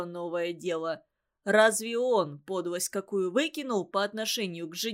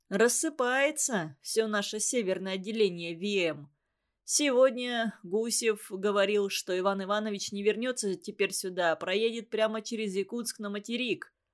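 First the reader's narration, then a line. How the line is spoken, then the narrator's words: Half joking, sad. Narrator (Russian): И шутя и грустно, Сергутов сказал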